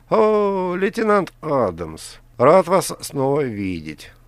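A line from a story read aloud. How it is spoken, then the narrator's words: Laughing aloud. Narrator (Russian): Он в голос рассмеялся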